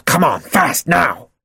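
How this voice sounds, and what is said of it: Sharp growling commanding voice. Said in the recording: “Jack growled ... Jack's sharp tone of voice”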